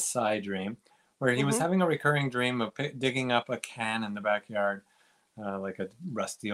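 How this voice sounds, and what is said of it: Usual voice. Nothing is said of it.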